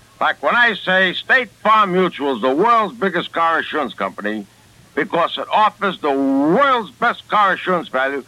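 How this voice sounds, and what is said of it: Brooklyn accent. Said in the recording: “people telling me I talk with a bad Brooklyn accent ... Does that sound like a bad Brooklyn accent to you? To me, it sounds like a beautiful Brooklyn accent.”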